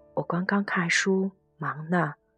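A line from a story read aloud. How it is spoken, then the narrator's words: Flat, indifferent. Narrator (Chinese): 对方淡淡的讲道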